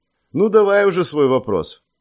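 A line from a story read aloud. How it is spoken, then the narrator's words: Heavy sigh, resigned. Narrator (Russian): Тяжело вздохнув, согласился я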